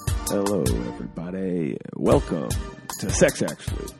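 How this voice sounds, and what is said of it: Put-on sexy voice. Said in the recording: “That's my sexy voice.”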